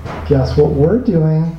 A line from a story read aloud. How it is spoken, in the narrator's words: she cooed